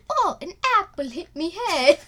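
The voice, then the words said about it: Unidentifiable put-on accent. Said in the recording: “I don't know what accent that was”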